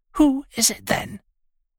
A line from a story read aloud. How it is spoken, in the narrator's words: They spoke in whispers now